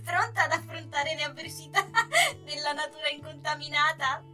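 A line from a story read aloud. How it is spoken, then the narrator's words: Laughing over the phone. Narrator (Italian): rise Federica dall'altra parte della cornetta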